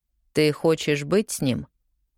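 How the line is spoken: Cold statement. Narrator (Russian): холодно заявляет

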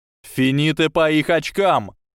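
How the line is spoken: Shout. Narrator (Russian): закричал Блейз Забини

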